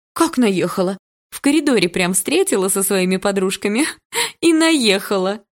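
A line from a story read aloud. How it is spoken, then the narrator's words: Joyful announcement. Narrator (Russian): Радостно сообщила Яна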